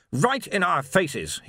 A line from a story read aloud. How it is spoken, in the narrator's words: he snapped